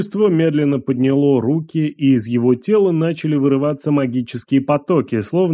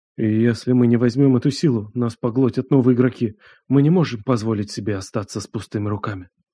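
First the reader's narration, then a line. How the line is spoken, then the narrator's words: Elder's whisper. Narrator (Russian): Один из старейшин ... прошептал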